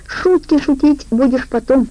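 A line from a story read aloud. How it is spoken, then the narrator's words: Shrill squeal. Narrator (Russian): взвизгнул жопа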